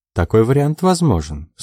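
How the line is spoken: Dry. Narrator (Russian): сухо оценила миссис Трэмбли

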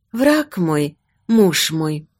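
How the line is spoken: Whispered. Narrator (Russian): прошептала она

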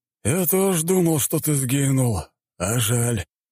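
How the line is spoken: Sighing. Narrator (Russian): вздохнул его собеседник

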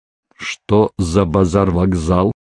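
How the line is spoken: Stern question. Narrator (Russian): строго спросил

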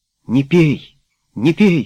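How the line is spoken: Exclaimed. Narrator (Russian): воскликнула Герти

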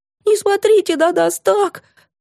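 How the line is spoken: Sobbing. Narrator (Russian): всхлипывала Стеша

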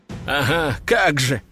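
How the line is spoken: Short laugh. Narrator (Russian): хохотнул Игорь

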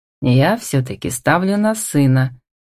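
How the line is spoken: Pleased chuckle. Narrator (Russian): довольно хмыкнул Демьяновский

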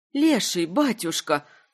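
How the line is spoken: Weary plaintive plea. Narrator (Russian): вслух устало и жалобно попросила Малинка

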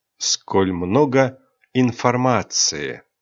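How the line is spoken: Ironic drawl. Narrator (Russian): иронично протянул Рионар

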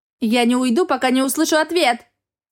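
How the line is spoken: Shouting. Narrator (Russian): прокричала Ассоль

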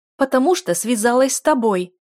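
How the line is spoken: Duchess shouting. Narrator (Russian): закричала герцогиня

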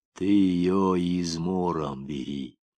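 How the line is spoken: Gentle advice. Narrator (Russian): ласково посоветовал Корчмаренко

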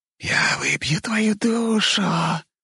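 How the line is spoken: Hissing spider. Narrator (Russian): прошипела паучиха

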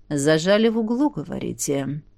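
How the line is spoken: Quiet questioning. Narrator (Russian): Тихо переспросил князь

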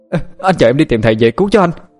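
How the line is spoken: Overjoyed, loud shout. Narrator (Vietnamese): Huyền Y mừng lắm, hét lớn lên

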